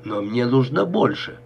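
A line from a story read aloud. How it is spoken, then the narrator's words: Grumbling. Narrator (Russian): заворчал Беллини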